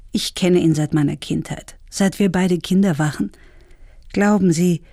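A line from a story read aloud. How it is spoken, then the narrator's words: Calm. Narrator (German): sagte ruhig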